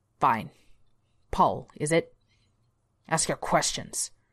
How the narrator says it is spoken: Glenn snapped

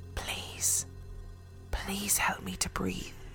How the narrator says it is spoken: a clear voice whispered

